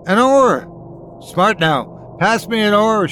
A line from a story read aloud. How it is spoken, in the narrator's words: shouted the captain